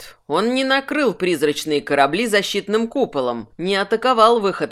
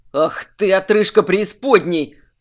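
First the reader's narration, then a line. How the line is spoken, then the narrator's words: Angry growl. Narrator (Russian): прорычал Минош, зло прищуриваясь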